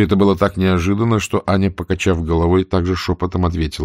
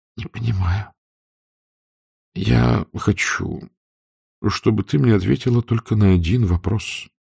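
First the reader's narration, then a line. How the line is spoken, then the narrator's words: Very slow. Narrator (Russian): сказал Берг очень медленно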